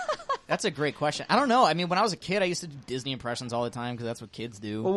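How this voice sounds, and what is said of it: Usual voice. Nothing is said of it.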